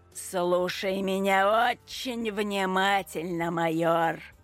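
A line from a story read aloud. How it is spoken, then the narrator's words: Through gritted teeth. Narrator (Russian): Процедил Сидорчук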